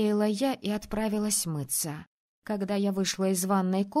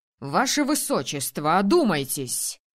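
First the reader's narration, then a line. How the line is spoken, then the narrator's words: Shouting. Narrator (Russian): кричал на Мартину высокий мужчина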